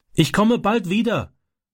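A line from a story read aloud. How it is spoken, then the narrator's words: Calling through car window. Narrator (German): rief er durchs Autofenster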